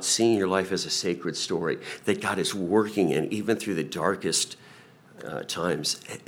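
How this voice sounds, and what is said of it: Smooth NPR-style radio voice. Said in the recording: “I didn't know you had a NPR radio voice.”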